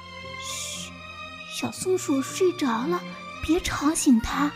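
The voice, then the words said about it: Soft whispered voice. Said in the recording (Chinese): “小声地说”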